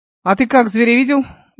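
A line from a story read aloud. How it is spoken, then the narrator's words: Sudden loud laughter. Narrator (Russian): он вдруг захохотал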